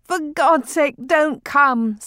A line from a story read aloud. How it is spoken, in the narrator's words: Septimus cried out, for he could not look upon the dead